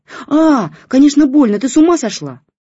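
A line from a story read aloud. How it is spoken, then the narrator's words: Yelling again. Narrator (Russian): заорала опять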